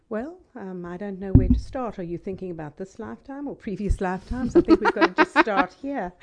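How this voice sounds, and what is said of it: South African accent. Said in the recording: “as you can hear from my accent, I was born in South Africa ... Southern Hemisphere, British colonial.”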